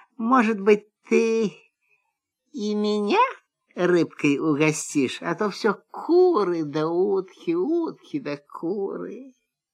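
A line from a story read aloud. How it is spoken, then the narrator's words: Quiet question. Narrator (Russian): Лиса тихо так спрашивает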